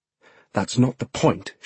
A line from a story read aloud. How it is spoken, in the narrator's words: she says angrily